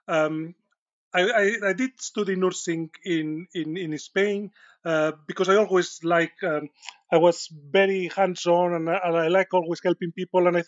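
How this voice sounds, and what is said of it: Strong Spanish accent. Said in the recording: “my accent is not a Yorkshire accent. It's a Spanish accent. And despite being here for 20 years, my accent is still quite strong.”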